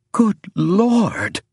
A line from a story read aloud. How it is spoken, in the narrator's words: cried James